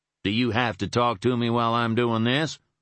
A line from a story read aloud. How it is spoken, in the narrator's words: he snapped impatiently